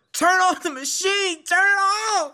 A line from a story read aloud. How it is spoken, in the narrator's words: I hollered